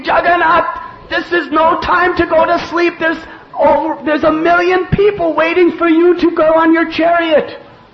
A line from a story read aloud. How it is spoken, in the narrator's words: He started screaming at Jagannath, screaming at him, saying